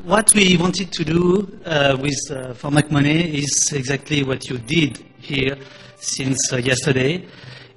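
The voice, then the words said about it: Strong French accent in English. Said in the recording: “sorry for my French basic accent. ... I speak English like Nicolas Sarkozy.”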